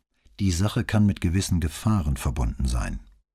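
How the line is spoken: Calm official tone. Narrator (German): antwortete ruhig, aber in amtlichem Ton

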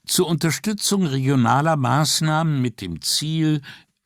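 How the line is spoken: Trailing off with a sigh. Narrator (German): fing sie an, brach seufzend ab

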